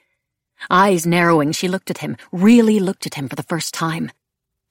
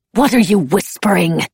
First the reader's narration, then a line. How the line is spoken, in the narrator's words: She hissed